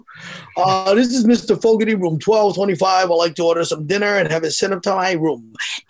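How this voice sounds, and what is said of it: Performs a character voice. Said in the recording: “impersonation, do the whole room service bit”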